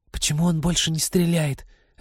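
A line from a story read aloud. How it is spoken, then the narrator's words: Whispered question. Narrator (Russian): отчего-то шепотом спросила Полина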